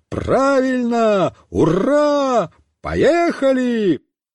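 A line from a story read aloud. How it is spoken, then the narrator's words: Loud yelling. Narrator (Russian): Александр Семенович тоже завопил во все горло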